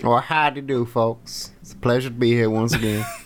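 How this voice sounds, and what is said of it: Put-on cowboy stranger accent. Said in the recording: “the voice of some stranger out from the desert ... I'm done with the accent.”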